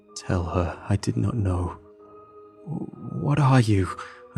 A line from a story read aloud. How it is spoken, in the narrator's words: stammered